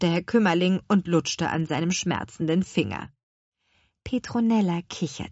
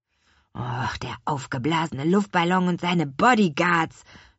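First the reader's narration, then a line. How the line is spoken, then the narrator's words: Groaning. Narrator (German): stöhnte Louis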